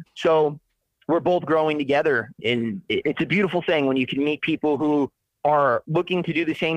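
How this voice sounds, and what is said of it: Usual voice. Nothing is said of it.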